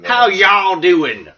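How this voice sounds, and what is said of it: Put-on Southern accent. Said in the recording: “we're Southern, but we don't have a good Southern accent. Maybe we should start faking one”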